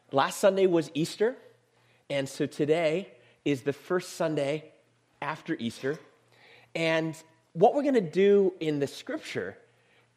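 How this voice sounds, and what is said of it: Hoarse, raspy voice. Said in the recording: “excuse my voice. I'm recovering from being sick. So you're going to hear me kind of, yeah, it kind of sounds like I've taken up smoking or something like that.”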